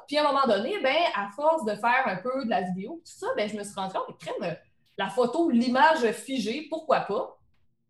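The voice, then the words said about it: Rural Quebec French accent. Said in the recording (French): “mon accent de la bosse”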